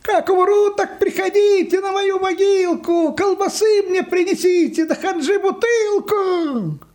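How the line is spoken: Distant shouting. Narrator (Russian): Йоська кричал где-то уже в отдалении

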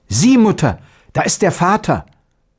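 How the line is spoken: Boy exclaiming. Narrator (German): Der Knabe rief aus

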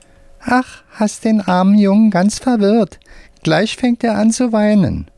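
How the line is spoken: Squeaky voice. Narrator (German): sagt mit piepsiger Stimme

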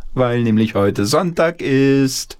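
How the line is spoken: Grandmother calling. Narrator (German): rief die Oma ins Bad

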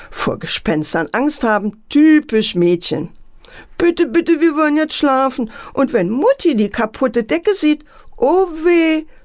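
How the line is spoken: Sobbing. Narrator (German): schluchzte Antje

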